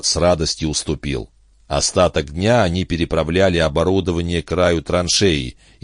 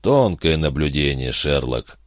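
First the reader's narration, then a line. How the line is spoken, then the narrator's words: Grumbled. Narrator (Russian): буркнул Гард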